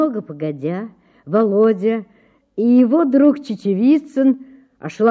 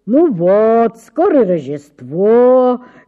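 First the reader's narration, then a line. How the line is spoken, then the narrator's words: Father's singsong drawl. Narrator (Russian): говорил нараспев отец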